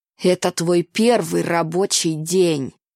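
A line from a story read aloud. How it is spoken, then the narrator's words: Growling. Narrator (Russian): прорычал он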